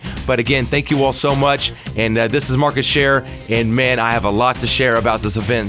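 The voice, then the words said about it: Strained, nearly lost voice. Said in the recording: “I'm about to lose my voice.”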